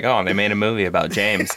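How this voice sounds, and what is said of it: Impression of his wife's voice. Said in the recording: “that is exactly how she sounds ... That's my impression of her when she's talking shit about me.”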